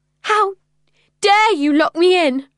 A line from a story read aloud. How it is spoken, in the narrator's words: I cried, my voice trembling with rage